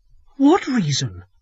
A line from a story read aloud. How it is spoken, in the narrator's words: asked Evelyn in a frightened voice